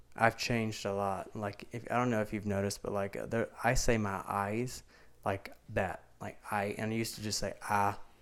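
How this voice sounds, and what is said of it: Thick Southern country accent. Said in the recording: “my accent and how much is like a country accent, southern accent ... I feel like it's still so thick”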